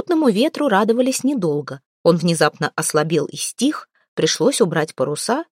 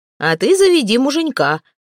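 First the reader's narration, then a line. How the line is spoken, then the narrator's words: Cheerful advice. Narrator (Russian): весело посоветовал Хирдман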